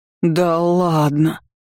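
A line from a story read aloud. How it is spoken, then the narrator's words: Awed breathy exclamation. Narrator (Russian): выдохнула в благоговении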